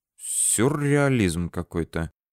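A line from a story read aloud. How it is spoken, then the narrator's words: Muttered. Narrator (Russian): пробормотал я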